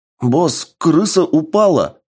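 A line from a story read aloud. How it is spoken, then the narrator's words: Excited yelling. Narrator (Russian): взволнованно заорал Гай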